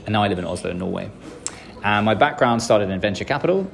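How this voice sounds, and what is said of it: British English accent. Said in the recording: “grew up in England, hence the British accent.”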